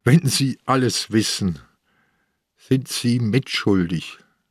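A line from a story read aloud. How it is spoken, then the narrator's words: Tired, sad voice. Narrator (German): Seine Stimme klang müde und traurig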